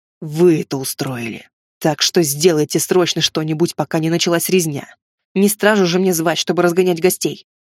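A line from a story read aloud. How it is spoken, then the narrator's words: Menacing hiss through teeth. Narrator (Russian): грозно прошипел сквозь зубы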